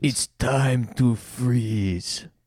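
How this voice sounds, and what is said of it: Impression of Schwarzenegger's Mr. Freeze. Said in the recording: “That's my Mr. Freeze impersonation from Batman Forever ... Arnold Schwarzenegger as Mr. Freeze”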